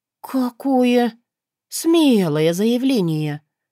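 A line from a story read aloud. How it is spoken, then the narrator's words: Respectful drawl. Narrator (Russian): уважительно протянула я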